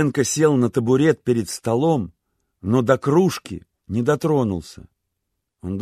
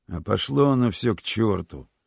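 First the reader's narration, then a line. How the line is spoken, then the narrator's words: Sudden mutter. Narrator (Russian): неожиданно пробормотал Беденко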